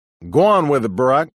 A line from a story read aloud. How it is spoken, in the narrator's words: somebody else shouted